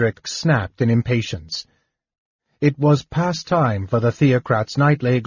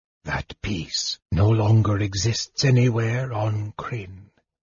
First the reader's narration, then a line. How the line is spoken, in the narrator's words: the mage whispered